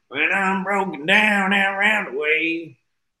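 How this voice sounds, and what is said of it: Sung imitation of another person's voice. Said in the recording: “that's a good Bill Chambers imitation”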